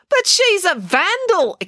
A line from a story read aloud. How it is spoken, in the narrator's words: exclaimed April